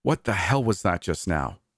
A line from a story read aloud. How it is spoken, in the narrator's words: hissed